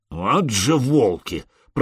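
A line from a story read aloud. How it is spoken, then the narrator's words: Grumbled. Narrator (Russian): проворчал Простен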